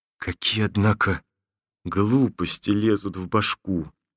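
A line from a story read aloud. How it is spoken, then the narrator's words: Embarrassed whisper. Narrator (Russian): прошептал сконфуженно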